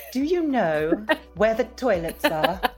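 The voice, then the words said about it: Uncanny Bridget Jones impression. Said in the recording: “it's like Bridget Jones ... that impression was uncanny”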